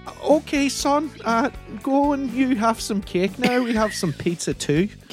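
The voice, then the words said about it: Imitates another person's accent. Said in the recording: “her terrible accent”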